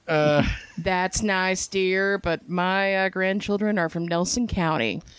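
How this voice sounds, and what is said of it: Imitates another person's voice, badly. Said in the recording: “terrible impersonation”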